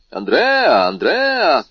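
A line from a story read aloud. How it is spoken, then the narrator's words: Several young men shouting. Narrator (Russian): крикнуло несколько молодых людей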